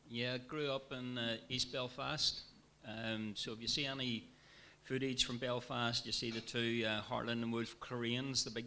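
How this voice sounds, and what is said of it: Northern Irish accent. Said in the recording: “this is not a Lancashire accent. It's Northern Ireland.”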